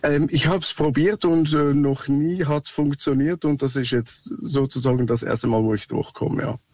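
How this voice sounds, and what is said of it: Swiss German accent. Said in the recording (German): “Sorry, mein Akzent, ich bin Schweizer.”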